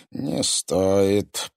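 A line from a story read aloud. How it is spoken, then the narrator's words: Through gritted teeth. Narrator (Russian): процедил Корф сквозь зубы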